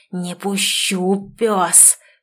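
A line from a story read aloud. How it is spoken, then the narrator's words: Frenzied hiss. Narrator (Russian): шипел Виктор в неистовстве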